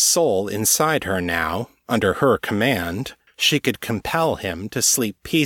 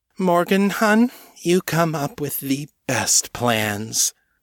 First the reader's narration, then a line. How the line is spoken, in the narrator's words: John purred